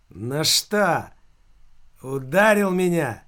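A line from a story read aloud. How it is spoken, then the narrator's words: Loud question. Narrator (Russian): громко спросил Филька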